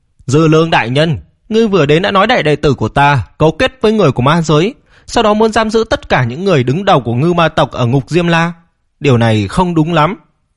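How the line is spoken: Suppressed anger. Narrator (Vietnamese): Ngư Cường áp chế sự tức giận ở trong lòng, nói

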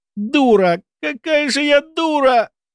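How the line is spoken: Inner despairing moan. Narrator (Russian): простонала про себя Кенна

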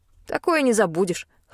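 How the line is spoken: Scoffing snort. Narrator (Russian): хмыкнул Пит

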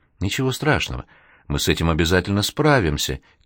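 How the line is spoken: Soft whisper. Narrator (Russian): тихо шептала она

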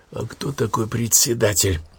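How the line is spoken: Quiet question. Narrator (Russian): тихонько спросил Данилов Луи

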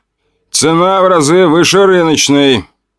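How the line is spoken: Calm answer. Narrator (Russian): также спокойно ответил я

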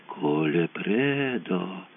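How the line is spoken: Drawn-out drawl. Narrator (Russian): протянула Кончита

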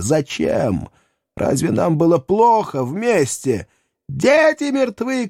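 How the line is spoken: Shouting. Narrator (Russian): кричала Анна

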